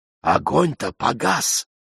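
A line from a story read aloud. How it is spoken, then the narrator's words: Women whispering. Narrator (Russian): Женщины зашептались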